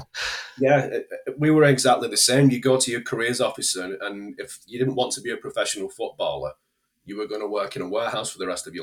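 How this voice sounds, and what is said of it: English northern accent. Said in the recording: “you have a less southerly accent ... is he talking about his northern accent”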